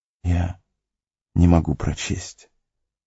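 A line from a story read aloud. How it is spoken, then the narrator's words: Barely audible. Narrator (Russian): едва слышно произнес Фродо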